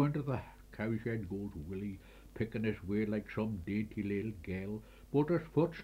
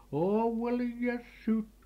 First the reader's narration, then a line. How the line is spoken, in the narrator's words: cried his mother